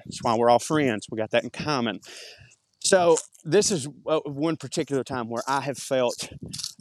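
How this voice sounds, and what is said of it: Very thick regional accent. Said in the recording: “with my accent, I've got a very, very thick accent”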